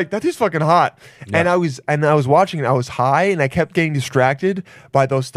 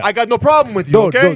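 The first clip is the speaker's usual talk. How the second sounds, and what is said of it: Put-on Italian accent. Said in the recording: “berate your gay brain in an Italian accent”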